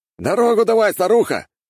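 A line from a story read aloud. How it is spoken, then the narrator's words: Man shouting. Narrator (Russian): выкрикнул мужчина на БТРе, который возглавлял колонну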